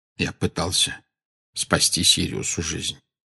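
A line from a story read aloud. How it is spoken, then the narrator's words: Quiet reply. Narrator (Russian): тихо ответил Дамблдор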